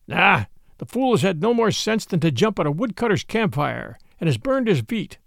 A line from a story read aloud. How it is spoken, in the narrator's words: said Father Wolf with a grunt